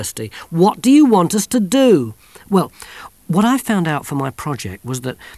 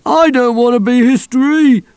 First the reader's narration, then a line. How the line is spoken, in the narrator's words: moaned Wobbler